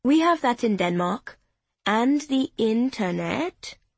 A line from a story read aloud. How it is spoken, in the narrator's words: she added slowly, pretending to be clueless